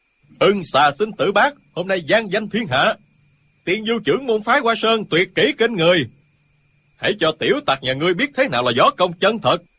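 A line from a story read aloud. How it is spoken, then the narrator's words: Crowd cheering loudly. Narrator (Vietnamese): môn hạ phái Hoa Sơn reo hò gian dội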